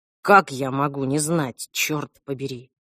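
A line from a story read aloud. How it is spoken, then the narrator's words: Grumbling. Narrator (Russian): буркнул Альф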